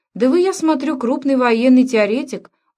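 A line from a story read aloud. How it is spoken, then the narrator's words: Throaty loud laughter. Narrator (Russian): Уоттон гортанно расхохотался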